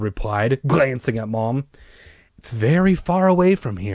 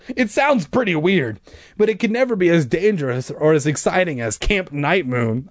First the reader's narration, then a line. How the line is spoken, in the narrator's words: I exclaimed